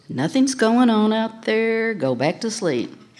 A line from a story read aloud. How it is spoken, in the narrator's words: she acted nonchalant and calmly said